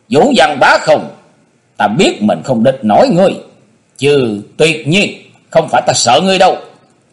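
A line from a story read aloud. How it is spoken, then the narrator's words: Angry loud shout. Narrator (Vietnamese): Tần Thiên Phong tức giận quát to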